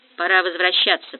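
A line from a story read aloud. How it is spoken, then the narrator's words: Muttering. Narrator (Russian): пробормотал Умба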